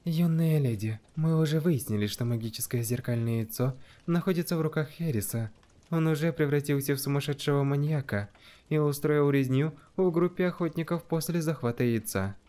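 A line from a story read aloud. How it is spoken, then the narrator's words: Quiet. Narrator (Russian): тихо сказала Каи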